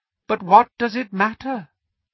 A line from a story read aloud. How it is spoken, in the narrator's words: He said softly